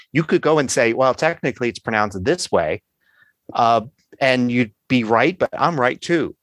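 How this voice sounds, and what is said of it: Philadelphia accent. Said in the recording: “I've got this Philadelphia accent because that's where I grew up”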